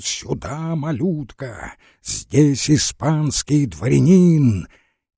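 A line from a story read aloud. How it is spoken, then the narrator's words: Frantic, crazed shout. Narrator (Russian): Водопьянов сумасшедшим голосом крикнул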